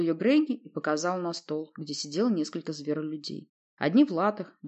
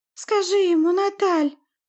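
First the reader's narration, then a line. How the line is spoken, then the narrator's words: Sweet pleading. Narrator (Russian): попросила она сладким тоном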